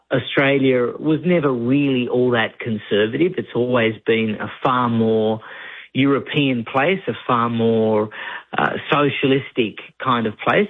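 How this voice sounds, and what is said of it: Australian accent. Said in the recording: “I left there a long, long time ago ... Unfortunately, the accent never seems to go.”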